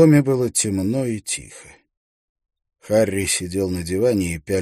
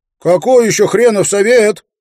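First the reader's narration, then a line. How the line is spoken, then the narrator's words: Shouted toward door. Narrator (Russian): прокричал Эйстин в сторону двери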